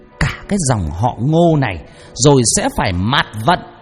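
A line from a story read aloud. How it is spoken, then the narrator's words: Angry shout. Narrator (Vietnamese): tiếng quát đầy giận dữ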